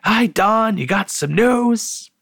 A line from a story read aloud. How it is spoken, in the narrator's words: He eagerly cut in